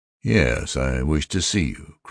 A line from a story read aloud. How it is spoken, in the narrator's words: Crow said calmly